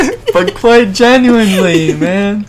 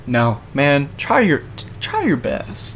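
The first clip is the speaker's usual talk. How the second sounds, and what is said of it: Country accent. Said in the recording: “You had such a country accent.”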